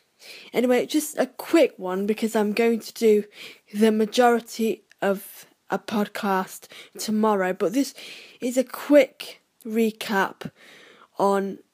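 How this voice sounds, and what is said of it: Nasal, froggy voice. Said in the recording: “I sound quite nasal and froggy-like ... I've got a little bit of a cold”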